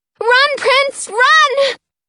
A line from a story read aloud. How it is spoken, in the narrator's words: I yell, my heart thumping